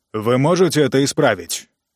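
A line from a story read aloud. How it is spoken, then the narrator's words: Rude interruption. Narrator (Russian): Грубо перебил его Ранситер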